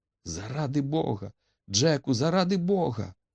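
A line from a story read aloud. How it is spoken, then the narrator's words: Bewildered exclamation. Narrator (Ukrainian): вигукнула розгублена Етті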